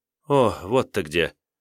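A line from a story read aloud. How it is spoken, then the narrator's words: Breathed out with relief. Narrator (Russian): выдохнула с заметным облегчением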